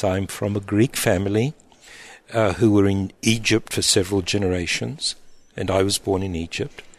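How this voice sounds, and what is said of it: Non-local foreign accent. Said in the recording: “I'm sure that our listeners can already pick up from your accent that you're not from these parts ... my accent is not even Romanian”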